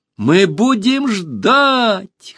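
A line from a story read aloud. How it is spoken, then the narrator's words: Girls shouting in chorus. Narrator (Russian): хором закричали все девушки деревни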